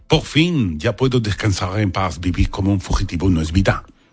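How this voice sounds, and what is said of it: Put-on Parisian French accent. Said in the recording (Spanish): “Me ha salido bien el acento. ... te ha salido parisino”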